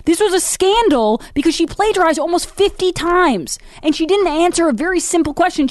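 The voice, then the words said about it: Yelling, loud agitated speech. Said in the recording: “I gotta stop yelling at everybody ... here I am still screaming”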